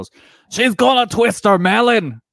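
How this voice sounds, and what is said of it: Imitated Scottish commentator accent. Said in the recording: “that was a good accent.”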